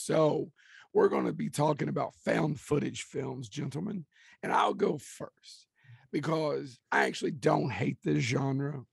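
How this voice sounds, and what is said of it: Hoarse, raspy, nearly lost voice. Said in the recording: “I started to sound like, you know, Marge's sister from The Simpsons... I've lost my voice. I'm not really sick. I've just lost my voice.”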